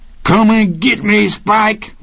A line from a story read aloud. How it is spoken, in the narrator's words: Rocky screamed